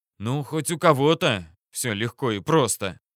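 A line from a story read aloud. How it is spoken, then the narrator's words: Irritated mutter. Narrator (Russian): раздраженно пробормотал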